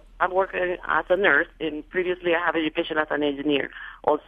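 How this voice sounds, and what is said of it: Slight Latina accent. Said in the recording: “I have a little bit of an accent. I'm also Latina.”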